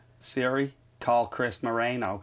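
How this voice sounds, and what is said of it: Hammy put-on American accent. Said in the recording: “That was an American accent. ... hammy”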